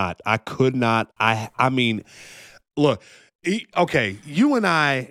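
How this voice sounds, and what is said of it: Usual voice. Nothing is said of it.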